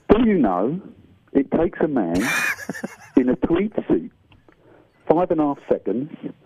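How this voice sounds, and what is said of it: Michael Caine impression. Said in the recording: “in a certain voice ... My name is Michael Caine.”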